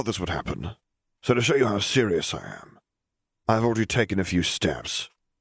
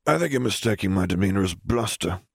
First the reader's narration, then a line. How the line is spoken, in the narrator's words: sighed